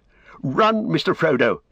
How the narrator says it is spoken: he cried

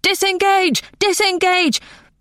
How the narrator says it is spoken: But Nona's scream was louder

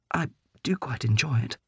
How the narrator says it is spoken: supplied feebly

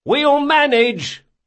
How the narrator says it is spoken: Locke yelled

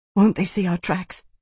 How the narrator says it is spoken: she whispered in a rough gasp of breath

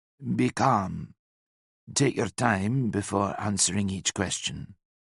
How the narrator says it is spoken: he whispered

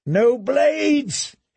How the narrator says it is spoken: he screamed

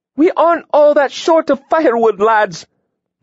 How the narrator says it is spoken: Lydia roared

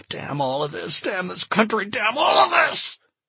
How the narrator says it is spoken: he sobbing

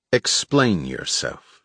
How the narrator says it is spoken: she said

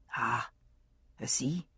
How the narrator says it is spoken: he said softly

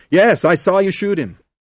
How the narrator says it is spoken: Someone shouted in his ear

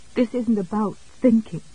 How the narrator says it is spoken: Jessie said shakily

